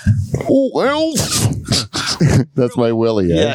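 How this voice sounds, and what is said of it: Attempted cartoonish sitcom character voice. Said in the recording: “do an impression from Alf ... No, wait. I can't do it. I didn't warm up.”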